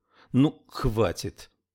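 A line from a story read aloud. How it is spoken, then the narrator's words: Irritated interruption. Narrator (Russian): прервала ее Труди раздраженно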